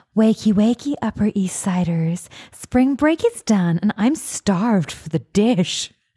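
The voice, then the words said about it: Imitates another person's voice. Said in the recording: “my Kirsten Bell impression”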